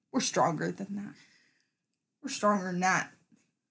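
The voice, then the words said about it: Backwoods hillbilly accent. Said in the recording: “I sound like some fucking, like, backwoods hillbilly”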